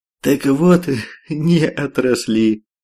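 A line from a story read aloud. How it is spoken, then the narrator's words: Short laugh. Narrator (Russian): хохотнул Каштан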